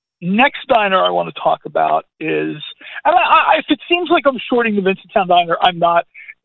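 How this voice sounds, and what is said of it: Hoarse, scratchy, cracking voice. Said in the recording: “my voice, you could probably tell, a little bit hoarse. I'm slightly under the weather... My voice is cracking a little bit... My voice just got a little scratchy”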